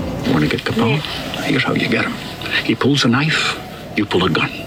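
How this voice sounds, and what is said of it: Very strong Scottish accent. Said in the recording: “is he Scottish? ... Very strong Scottish accent.”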